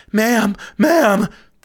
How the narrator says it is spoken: cried out with a croaky, broken voice of desperation

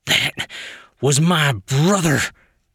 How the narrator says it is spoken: he shouted

